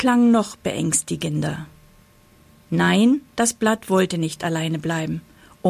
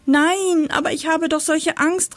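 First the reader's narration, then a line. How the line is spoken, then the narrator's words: Repeated call. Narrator (German): rief es wieder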